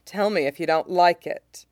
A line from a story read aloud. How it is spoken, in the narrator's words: he murmurs, confident that the swordsman won't have anything to complain about